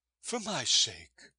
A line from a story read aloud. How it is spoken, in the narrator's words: she begged